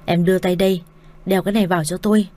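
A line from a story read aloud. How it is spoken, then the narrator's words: Irritated shout. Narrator (Vietnamese): Đông Quân nhăn mặt cau mày quát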